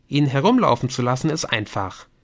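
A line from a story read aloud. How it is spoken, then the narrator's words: Plain. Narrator (German): sagte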